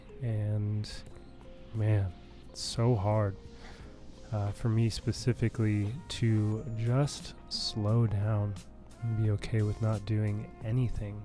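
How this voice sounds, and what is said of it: Voice sounds sick, under the weather. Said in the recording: “As you can tell by my voice, I've been a little bit under the weather lately”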